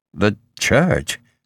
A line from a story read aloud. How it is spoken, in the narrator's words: Harms said feebly